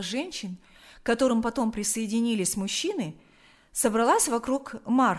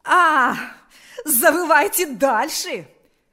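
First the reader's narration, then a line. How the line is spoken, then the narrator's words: Shouting. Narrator (Russian): вновь закричала она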